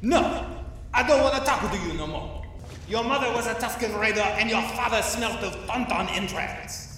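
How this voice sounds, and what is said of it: Outrageous put-on villain accent. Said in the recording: “this outrageous Sith accent”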